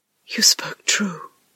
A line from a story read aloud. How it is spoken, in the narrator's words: whispered